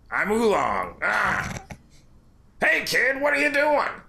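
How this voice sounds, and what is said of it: Nasally, gravelly pig character voice. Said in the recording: “that nasally pig voice ... Just leave it that grizzle ... It's pretty good ... It hurts to do this voice ... I have to tense up my entire body”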